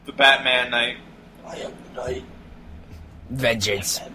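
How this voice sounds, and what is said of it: Imitates Batman's voice. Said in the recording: “my Batman impression”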